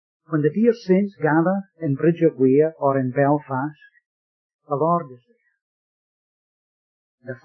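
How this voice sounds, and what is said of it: Scottish accent. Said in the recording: “So I reckon my accent still was a wee bit strange. But you see, I come from Scotland.”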